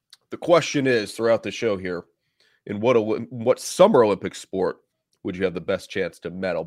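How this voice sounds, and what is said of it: Slightly hoarse voice. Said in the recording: “A little hoarse.”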